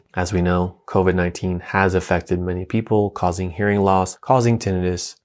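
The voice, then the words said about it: Calm, soothing speaking voice. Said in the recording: “my calm voice, which many of you tell me my voice is calming ... I was born this way. I didn't train to be this way.”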